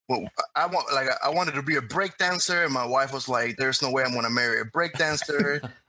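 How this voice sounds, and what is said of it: Cuban-accented English. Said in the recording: “I'm originally from Cuba, and this is why I speak so funny. And this is more like the real accent ... Cuban accent.”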